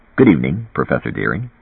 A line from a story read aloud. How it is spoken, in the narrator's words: said stiffly